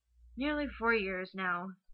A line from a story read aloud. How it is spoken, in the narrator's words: Steve sighs around a smile